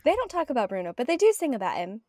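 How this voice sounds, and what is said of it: Poor put-on British accent. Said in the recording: “my terrible British accent”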